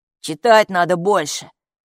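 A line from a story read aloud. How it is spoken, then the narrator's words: Scoffing snort. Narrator (Russian): фыркнул он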